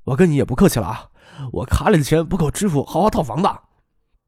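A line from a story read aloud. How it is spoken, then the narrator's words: Low, hushed. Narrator (Chinese): 梁文江拉他到一边，低声的说道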